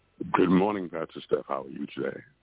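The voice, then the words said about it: Serious-sounding voice. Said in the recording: “a serious voice coming from you today”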